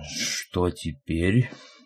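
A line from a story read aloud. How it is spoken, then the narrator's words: Muffled question, fat man. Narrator (Russian): глухо спросил толстяк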